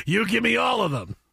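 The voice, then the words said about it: Robert Loggia impression. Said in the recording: “put on my Robert Loggia voice.”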